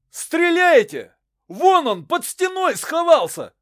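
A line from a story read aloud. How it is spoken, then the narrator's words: Shouting. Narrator (Russian): кричал Мезенский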